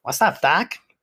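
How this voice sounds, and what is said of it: Poor Bugs Bunny impression. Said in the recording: “That was a terrible impression.”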